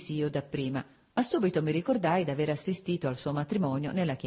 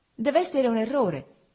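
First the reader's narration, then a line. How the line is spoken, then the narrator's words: Exclaimed. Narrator (Italian): esclamai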